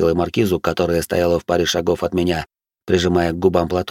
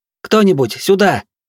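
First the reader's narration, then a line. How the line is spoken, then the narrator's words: Shouted. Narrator (Russian): крикнула она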